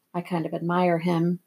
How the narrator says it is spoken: Sherry said softly so that only I heard

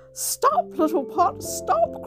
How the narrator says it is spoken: cried the little girl

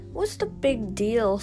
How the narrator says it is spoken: Sue scoffed

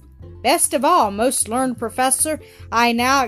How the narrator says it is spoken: exclaimed Fritz

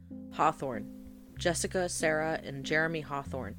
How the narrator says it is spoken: replied

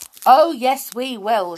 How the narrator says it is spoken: shouted Binky

